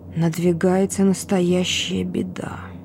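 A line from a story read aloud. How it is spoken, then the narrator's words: Quiet. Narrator (Russian): тихо сказал он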